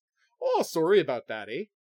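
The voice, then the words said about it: Stereotypical put-on Canadian accent. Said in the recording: “the most Canadian sorry I've ever done in my life ... Not normally my accent ... I'm doing this stereotypical Canadian accent”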